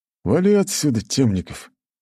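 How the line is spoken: Through gritted teeth. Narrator (Russian): процедил сквозь зубы Вилсон

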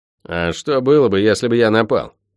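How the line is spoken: Angry, curt. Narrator (Russian): зло бросил ходящий

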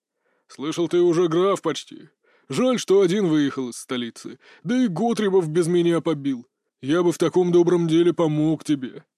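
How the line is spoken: Deep booming voice. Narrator (Russian): забасил мой сосед

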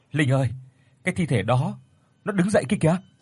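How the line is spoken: Trembling, terrified stammering call. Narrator (Vietnamese): chị Tuyết … run rẩy sợ hãi lắp bắp gọi tôi

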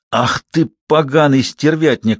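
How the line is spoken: Forced through teeth. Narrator (Russian): выдавил он сквозь зубы

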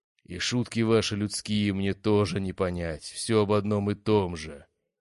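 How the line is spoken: Giant booming. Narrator (Russian): прогудел исполин

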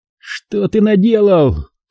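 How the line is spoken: Father's sharp cry. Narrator (Russian): вскрикнул отец

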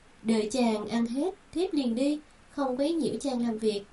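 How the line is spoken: Smiling voice. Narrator (Vietnamese): Tiểu Kiều mỉm cười

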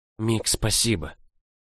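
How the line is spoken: Whisper. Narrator (Russian): прошептала

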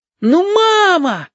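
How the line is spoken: Yelling, joyful and anxious. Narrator (Russian): завопил Стасик радостно и тревожно

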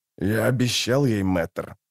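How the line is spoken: Shadow's grumble. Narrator (Russian): буркнула маячившая перед ней тень

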